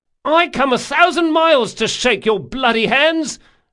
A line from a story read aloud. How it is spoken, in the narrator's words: Locke screamed